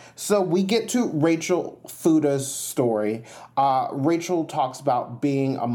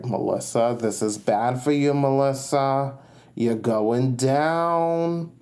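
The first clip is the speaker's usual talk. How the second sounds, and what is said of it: Put-on Long Island accent. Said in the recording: “I think that was a Long Island accent. ... I was channeling Jill Zarin in that moment.”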